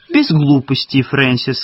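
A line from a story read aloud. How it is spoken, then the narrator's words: Cheerful. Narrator (Russian): сказала Марго весело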